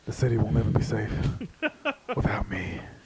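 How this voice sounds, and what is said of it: Dark brooding superhero voice. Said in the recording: “my DC voice ... dark and brooding”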